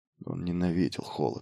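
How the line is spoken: Mutter. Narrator (Russian): пробормотал он

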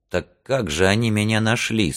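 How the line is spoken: Plain. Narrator (Russian): спросил он наконец

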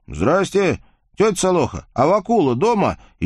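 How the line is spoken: Young man shouting from afar. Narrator (Russian): еще от плетня, не заходя во двор, крикнул недавний выпускник-гимназист

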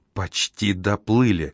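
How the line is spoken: Fearful whisper. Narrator (Russian): прошептала Айка, словно враг в небе мог ее услышать

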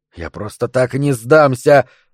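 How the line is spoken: Mumble. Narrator (Russian): пробормотал Поп

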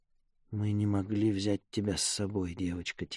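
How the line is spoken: Quiet. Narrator (Russian): тихо сказала Мира

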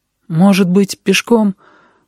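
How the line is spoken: Timid suggestion. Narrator (Russian): робко предложил Сережа

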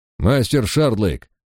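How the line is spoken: Formal, distant tone. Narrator (Russian): официальным тоном произнес Лич, словно мы и не были с ним знакомы

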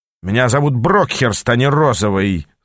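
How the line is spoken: Snarling imp. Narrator (Russian): зарычал бес

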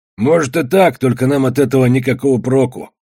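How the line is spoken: Grumbled. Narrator (Russian): проворчал Иси

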